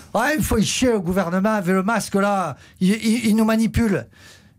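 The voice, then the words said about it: Put-on Southern French accent. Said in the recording (French): “l'accent du Sud”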